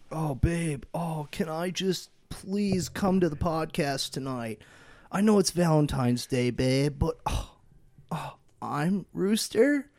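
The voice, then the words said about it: Imitates another person's voice, begging. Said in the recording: “an impression of Rooster begging his wife to be able to come tonight ... that was the best impression I've ever heard ... I guess I don't know how to do an impression of him”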